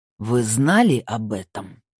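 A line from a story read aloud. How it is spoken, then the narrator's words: Growled. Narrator (Russian): прорычал Снейдер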